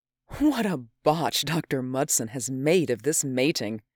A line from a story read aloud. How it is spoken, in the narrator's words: Her laugh rippled like falling water